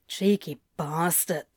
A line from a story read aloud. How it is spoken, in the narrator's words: Crowley muttered, the corners of his lips tugging into a smirk